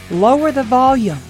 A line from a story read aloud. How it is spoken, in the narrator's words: Sky yelled